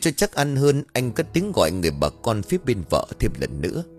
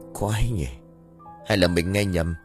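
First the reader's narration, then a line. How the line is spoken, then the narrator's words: Muttering. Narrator (Vietnamese): Anh lẩm bẩm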